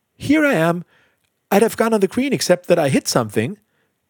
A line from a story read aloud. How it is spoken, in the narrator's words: she called cheerfully